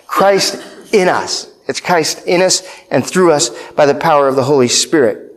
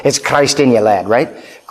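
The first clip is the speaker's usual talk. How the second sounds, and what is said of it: Scottish brogue imitating Alistair Begg. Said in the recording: “I can still hear the voice of Alistair Begg every time I say, it's Christ in you, right? I hear him speaking in that Scottish brogue.”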